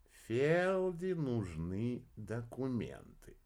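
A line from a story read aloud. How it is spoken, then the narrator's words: Drawl. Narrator (Russian): протянул орбидолочек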